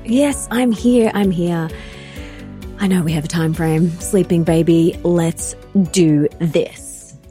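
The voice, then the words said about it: Sultry, sexy voice. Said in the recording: “sexy voice”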